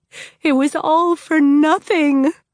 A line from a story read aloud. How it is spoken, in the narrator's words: Tella moaned